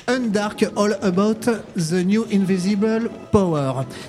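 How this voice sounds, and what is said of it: Poor French-accented English pronunciation. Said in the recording (French): “Pardon pour mon accent anglais absolument déplorable.”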